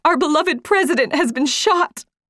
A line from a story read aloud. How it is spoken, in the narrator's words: Abbott, ran into our classroom sobbing and said